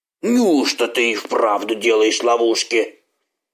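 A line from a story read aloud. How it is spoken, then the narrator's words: Doubtful mutter. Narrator (Russian): Все еще недоверчиво пробурчал Як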